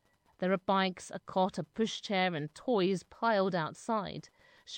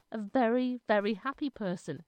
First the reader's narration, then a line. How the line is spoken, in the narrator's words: she says